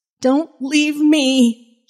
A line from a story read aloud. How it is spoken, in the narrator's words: Jenny cried